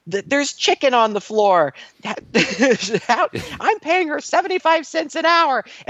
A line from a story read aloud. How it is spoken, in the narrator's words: she screams again, she's like